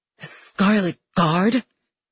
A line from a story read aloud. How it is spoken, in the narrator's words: He hisses